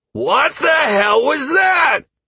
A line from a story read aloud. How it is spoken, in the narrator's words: Halcyon screamed